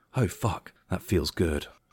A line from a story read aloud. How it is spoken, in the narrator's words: Jessica groaned softly